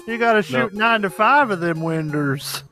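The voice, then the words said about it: Weird old southern carny accent. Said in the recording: “I like the accent that we've settled on from Barker Bill. I don't know why he talks like this. ... He definitely should be a weird old southern carny.”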